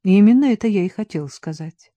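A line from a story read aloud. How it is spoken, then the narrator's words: Sighed. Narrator (Russian): вздохнул отец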